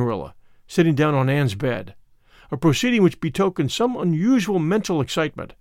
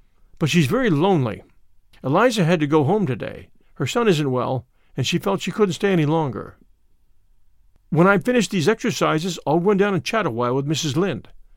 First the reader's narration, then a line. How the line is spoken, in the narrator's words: said Anne